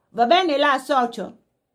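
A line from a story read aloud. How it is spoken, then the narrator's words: Shouted. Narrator (Italian): qualcuno gridò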